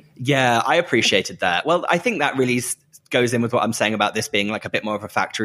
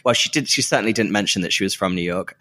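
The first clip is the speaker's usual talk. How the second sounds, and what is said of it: Sarcastic tone. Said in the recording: “I'm being sarcastic.”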